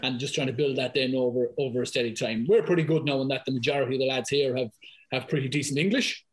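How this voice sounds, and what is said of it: Thick Irish accent. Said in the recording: “you can tell by my accent listening here, like, it's fairly thick Irish accent ... I'd be a bit of a fast talker and probably fairly lively”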